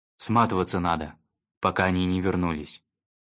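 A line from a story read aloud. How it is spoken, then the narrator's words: Grim. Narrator (Russian): мрачно сказал Раф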